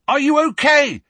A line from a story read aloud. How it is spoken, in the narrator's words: yelled